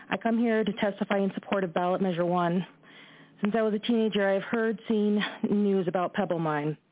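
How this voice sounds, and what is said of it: Emotional, shaky voice. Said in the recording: “I'm sorry I'm a little emotional, and I'm trying to kind of collect myself as well”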